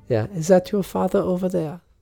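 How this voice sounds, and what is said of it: Put-on German accent. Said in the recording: “I have to do that accent correctly. ... I know you're getting German.”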